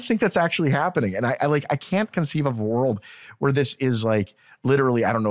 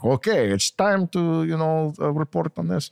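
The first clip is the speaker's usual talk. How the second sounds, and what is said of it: Put-on Russian accent, sounds evil. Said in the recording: “That's a Russian accent ... It sounds so evil.”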